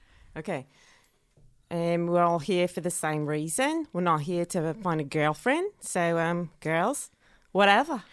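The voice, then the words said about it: Imitated accent, done well. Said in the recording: “That's good. ... We've got two very good accent people.”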